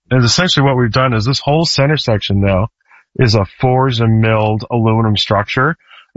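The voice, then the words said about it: Hoarse, strained voice. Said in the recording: “losing my voice. The allergies have been getting me.”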